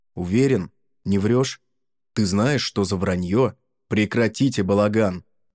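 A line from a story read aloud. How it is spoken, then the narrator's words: Rude loud outburst. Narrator (Russian): грубо и громко всколыхнулся адвокат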